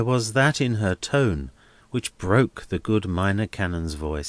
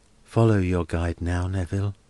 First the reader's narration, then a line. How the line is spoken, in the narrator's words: murmured Helena